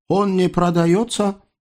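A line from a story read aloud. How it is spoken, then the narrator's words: Dry mutter. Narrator (Russian): Сухо буркнул Насреддин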